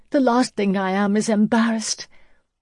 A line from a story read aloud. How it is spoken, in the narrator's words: gasped